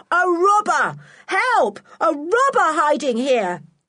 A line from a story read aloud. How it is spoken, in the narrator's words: he shouted